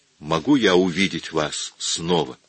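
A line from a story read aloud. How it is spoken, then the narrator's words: Plain. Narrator (Russian): спросил он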